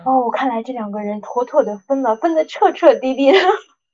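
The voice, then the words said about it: Quiet gossiping voice. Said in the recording (Chinese): “小声的在八卦了”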